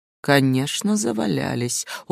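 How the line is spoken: Soft, smiling. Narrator (Russian): улыбнулся мягко

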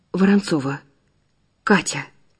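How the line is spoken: Strained, forced out. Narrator (Russian): выдавила женщина

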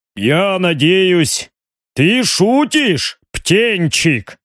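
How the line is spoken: Deep bass voice. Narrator (Russian): пробасил барон Риган

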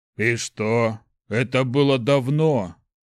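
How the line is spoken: Calm troll grumble. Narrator (Russian): невозмутимо проворчал тролль

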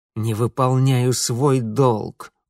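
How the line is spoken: Angry muttering through teeth. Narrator (Russian): успел зло процедить Митя

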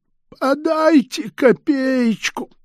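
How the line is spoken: Squeaky voice. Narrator (Russian): нищего только пропищал

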